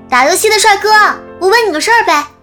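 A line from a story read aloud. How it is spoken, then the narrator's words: Eager calling. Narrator (Chinese): 那姑娘却叫得更起劲儿了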